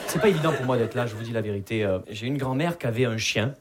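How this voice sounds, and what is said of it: Southern French accent, from Perpignan. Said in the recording (French): “Vous l'entendez à mon accent, je viens pas de Paris. Je viens de Perpignan.”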